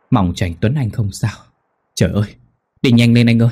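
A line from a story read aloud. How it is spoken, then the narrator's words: Trembling muttered prayer. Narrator (Vietnamese): Mỹ toàn thân run rẩy, lẩm bẩm cầu khấn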